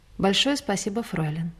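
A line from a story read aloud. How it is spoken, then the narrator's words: Soft, friendly, warm. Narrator (Russian): ласково улыбнулся мне и негромко сказал дружеским тоном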